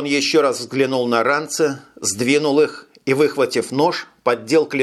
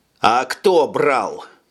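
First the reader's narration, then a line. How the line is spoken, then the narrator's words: Stern repetition. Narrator (Russian): строго повторил Тони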